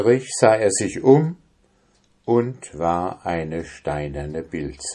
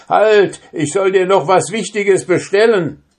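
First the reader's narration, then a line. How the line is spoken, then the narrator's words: Calling out. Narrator (German): rief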